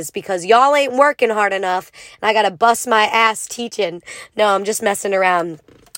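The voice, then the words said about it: Hoarse, rusty, worn-out voice. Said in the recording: “I sound a little different, it's because my voice is gone ... I've been yelling my ass off ... my voice is a little rusty”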